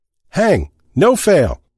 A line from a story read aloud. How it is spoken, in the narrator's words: shouted